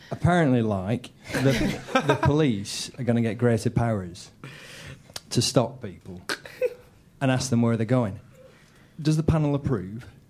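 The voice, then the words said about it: Exaggerated northern English accent. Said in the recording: “You don't sound northern ... I can sound northern if you like ... Could you be as northern as you possibly can?”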